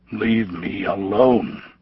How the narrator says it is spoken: he muttered

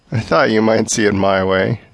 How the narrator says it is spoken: Jim chuckled

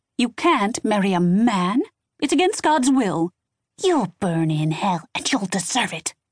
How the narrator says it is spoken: ex-wife hissed

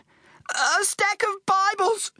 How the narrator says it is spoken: gasped

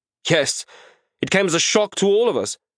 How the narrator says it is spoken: snapped

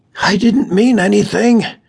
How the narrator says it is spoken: he gasped with the pain, writhing

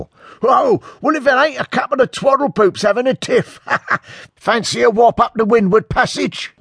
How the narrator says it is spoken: one shouts

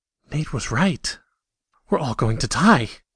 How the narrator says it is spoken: gasped to herself

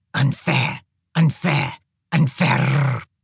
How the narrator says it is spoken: muttered

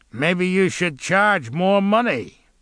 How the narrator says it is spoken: said the thug with a sneer

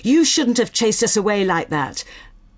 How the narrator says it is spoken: He says angrily

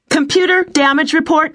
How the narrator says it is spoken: she called out

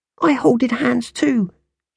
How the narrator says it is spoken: cried

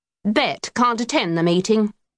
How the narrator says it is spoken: he said sternly

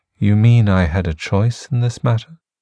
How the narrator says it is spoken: she says, in her most velvety tone

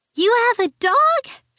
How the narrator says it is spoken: cried, as if this were the greatest news ever

